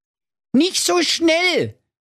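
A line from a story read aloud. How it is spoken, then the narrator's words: King calling out. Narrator (German): rief da der König der Schrankenwärter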